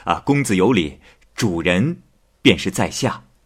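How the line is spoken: Smiling. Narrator (Chinese): 莱阳生笑了笑说

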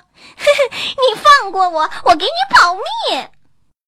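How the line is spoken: Crying. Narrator (Chinese): 田鼠哭着说

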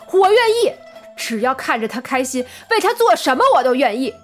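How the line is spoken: Loud retort. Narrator (Chinese): 张放高声反驳道

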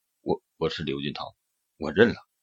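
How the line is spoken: Trembling murmur. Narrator (Chinese): 浑身打了个颤，口中喃喃道

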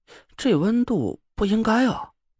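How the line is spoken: Puzzled muttering. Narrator (Chinese): 张俊轩奇怪的嘟囔了一句

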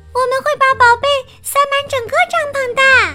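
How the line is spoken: Happy cry. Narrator (Chinese): 茉莉也快活的叫

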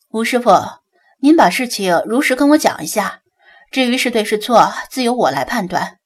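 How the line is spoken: Smiling, agreeing. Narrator (Chinese): 盛科微微一笑，附和道

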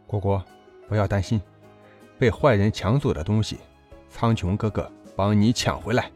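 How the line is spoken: Gentle, doting. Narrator (Chinese): 姬苍穹宠溺地，温柔地说道

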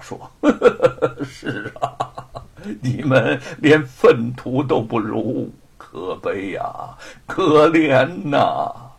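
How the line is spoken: Laughing. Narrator (Chinese): 吴承恩笑道

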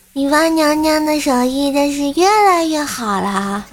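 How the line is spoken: Admiring exclamation. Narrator (Chinese): 怪小兽呢，感叹道

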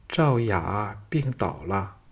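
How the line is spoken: Lowered voice. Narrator (Chinese): 再压低声音说

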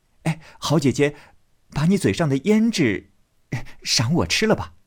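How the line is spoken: Teasing laugh. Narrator (Chinese): 宝玉……笑道

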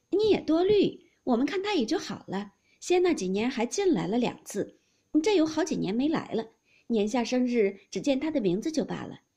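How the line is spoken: Two women, laughing. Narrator (Chinese): 李纨、凤姐儿都笑道

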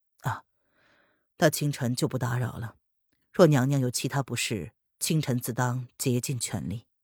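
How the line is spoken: Cool, faintly smiling. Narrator (Chinese): 林渊嘴角挂着若有似无的笑意，淡淡的寒暄

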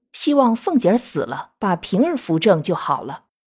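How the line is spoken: Sighing lament. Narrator (Chinese): 鲍二家的感叹着说

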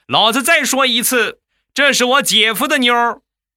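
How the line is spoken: Loud shout. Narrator (Chinese): 我小舅子大声的喊道

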